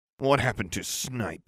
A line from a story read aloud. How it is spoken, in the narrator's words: I growled